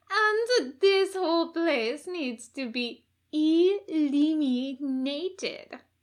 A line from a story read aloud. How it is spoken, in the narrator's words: Matilda drawled